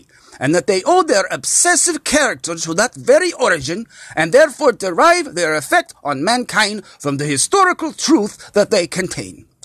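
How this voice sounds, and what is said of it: German-ish accent impression, sounding Russian. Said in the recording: “That was my Freud impression, even though I think it sounded a little bit more Russian than German”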